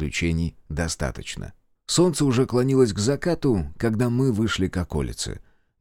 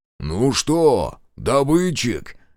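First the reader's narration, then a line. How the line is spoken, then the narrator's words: Loud bark. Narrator (Russian): гаркнул Фрол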